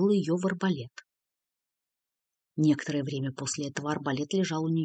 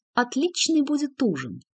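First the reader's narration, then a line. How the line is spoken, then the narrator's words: Joyful shout. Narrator (Russian): радостно вскричала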